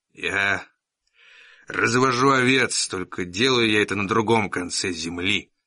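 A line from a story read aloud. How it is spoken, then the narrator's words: Rough uneven voice. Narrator (Russian): произнес он своим грубым неровным голосом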